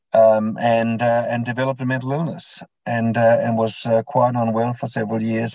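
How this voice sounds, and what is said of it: Danish accent. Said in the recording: “the accent might reveal that I wasn't born in Australia. So I was born in Denmark”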